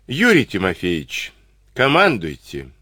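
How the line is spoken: Weary permission. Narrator (Russian): устало разрешил полковник

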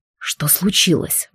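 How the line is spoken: Breathed out. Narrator (Russian): выдохнул он

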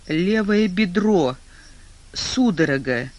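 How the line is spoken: Barely breathed out. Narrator (Russian): еле-еле выдохнул он

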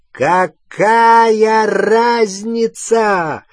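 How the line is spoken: Shout, then mad laughter. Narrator (Russian): выкрикнул Волан-де-Морт, и разразился раскатами безумного хохота

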